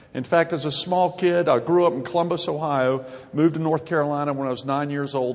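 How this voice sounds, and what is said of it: Southern American accent. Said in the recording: “That's where I got the Southern accent. And you can move there too and get a great Southern accent.”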